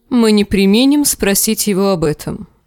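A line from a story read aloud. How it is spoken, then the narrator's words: Plain. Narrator (Russian): сказал сэр Бриндон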